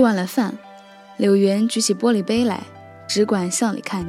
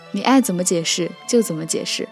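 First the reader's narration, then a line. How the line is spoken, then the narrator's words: Laughing. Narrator (Chinese): 柳元笑道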